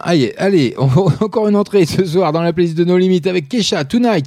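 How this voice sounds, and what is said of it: Hoarse, failing voice. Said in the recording (French): “j'ai perdu ma voix ... j'ai ma voix qui part en sucette, je sais pas ce que j'ai”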